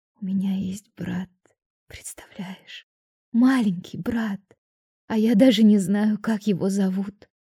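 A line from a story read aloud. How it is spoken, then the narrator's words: Hoarse whisper. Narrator (Russian): хрипло прошептала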